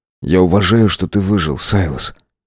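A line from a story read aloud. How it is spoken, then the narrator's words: Soft, gentle. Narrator (Russian): мягко произнес я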